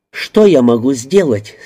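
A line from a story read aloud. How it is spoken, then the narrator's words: Angry question. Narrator (Russian): сердито спросила она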